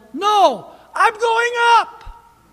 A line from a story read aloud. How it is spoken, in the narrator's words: he yelled